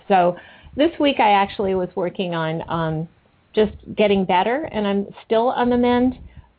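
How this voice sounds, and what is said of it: Scratchy, hoarse voice. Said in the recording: “I had a very bad sore throat last week, and my voice is still a little scratchy.”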